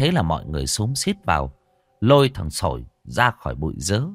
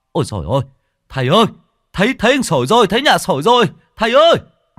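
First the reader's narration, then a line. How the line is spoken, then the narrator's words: Loud shout. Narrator (Vietnamese): một người hét to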